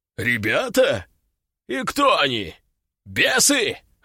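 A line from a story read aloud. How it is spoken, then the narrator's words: Demon laughing loudly. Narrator (Russian): расхохотался демон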